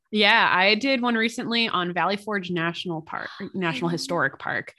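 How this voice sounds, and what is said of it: Speaks with vocal fry. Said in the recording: “my melodious vocal fry,”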